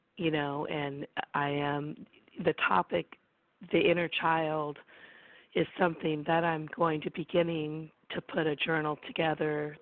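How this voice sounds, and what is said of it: Sick, weak voice cutting out. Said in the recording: “I'm really sick, so my voice is coming in and out.”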